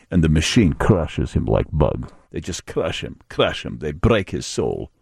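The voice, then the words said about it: Put-on Russian accent. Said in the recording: “I don't know why I use a Russian accent there. By the way, that was a Russian accent.”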